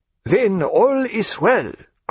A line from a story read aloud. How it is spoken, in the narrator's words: cried Jagiello